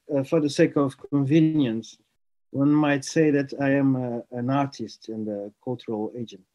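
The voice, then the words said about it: Portuguese accent. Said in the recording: “I am from Portugal ... You might notice it from my accent.”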